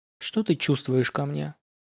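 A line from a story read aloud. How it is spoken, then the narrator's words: Quiet question, eyes lowered. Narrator (Russian): тихо спросила она, не поднимая глаз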